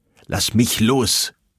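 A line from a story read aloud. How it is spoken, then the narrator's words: Angry shout. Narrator (German): rief er aufgebracht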